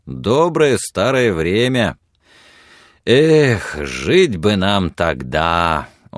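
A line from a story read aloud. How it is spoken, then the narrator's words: Deep sorrowful sigh. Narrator (Russian): он глубоко и горестно вздохнул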